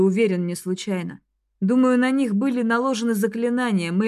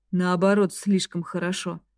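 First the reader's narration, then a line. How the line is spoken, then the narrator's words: Quiet. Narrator (Russian): тихо ответил Ал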